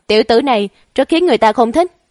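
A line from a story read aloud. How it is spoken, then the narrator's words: Angry old man. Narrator (Vietnamese): Lão Ngoan Đồng tức giận nói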